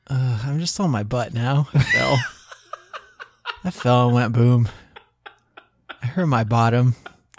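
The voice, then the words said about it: Sad, sulky voice. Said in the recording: “you sound kind of sad”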